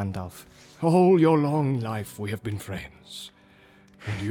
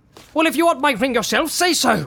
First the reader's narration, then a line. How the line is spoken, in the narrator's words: cried Bilbo